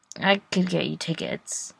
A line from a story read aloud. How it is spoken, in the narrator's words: Adam kind of mumbles